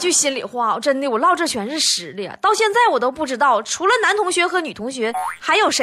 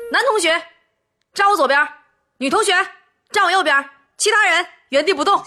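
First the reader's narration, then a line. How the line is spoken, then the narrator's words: Teacher shouting. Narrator (Chinese): 一位体育老师，他都会喊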